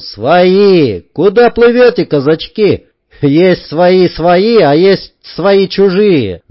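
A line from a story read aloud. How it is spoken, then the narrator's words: Seagulls shouting, laughing. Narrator (Russian): заорались чайки, но со смехом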